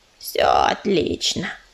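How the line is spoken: Grumbling. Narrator (Russian): проворчала кисточка

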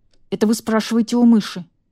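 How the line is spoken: Irritated. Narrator (Russian): раздраженно ответил Яшка

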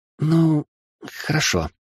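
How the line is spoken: Unsure babble. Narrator (Russian): неуверенно пролепетала магичка

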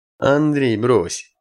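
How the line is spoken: Carefree interjection, commander. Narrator (Russian): Беззаботным тоном вклинился в разговор человеческий командующий

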